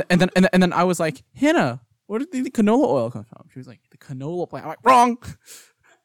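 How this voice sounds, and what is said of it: Usual voice. Nothing is said of it.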